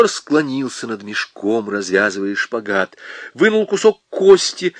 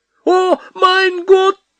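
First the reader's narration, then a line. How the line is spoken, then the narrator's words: Cry in foreign language. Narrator (Russian): Почему-то не по-нашему вскрикнула Капа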